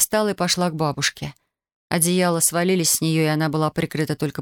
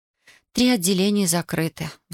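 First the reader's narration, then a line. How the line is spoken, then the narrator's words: Sighed. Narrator (Russian): вздохнула Татьяна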